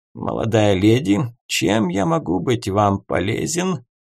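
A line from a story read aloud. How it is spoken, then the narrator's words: Creaky, thin smile. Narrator (Russian): проскрипел он, скупо улыбнувшись девушке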